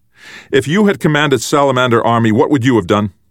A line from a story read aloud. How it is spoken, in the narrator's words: Bean, disabled but not completely frozen, called out from where he drifted near the enemy door